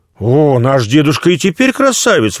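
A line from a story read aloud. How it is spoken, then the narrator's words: Exclaiming. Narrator (Russian): воскликнула Анна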